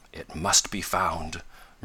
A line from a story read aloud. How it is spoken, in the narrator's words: murmured the scientist